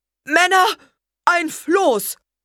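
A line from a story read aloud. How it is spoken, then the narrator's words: Calling out. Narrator (German): rief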